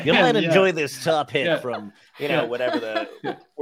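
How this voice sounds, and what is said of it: Imitates a radio DJ voice. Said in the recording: “worst Casey Kasem impression ever”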